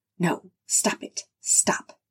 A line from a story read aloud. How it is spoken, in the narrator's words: she whispered softly, a hot tear squeezing from between clenched eyelids